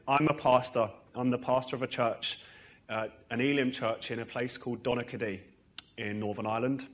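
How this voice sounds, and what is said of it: Hybrid English and Northern Irish accent. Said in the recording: “I'm from Harlow originally ... for the last 7 years, I've lived in Northern Ireland. So you can hear me, but whether you can understand me or not, I'm not sure. My accent's going through this strange hybrid phase.”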